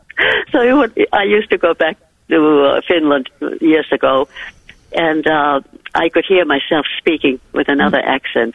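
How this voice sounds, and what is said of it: Mixed Finnish-American accent. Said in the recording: “You have the most beautiful accent ... My accent is in the middle of the Atlantic Ocean.”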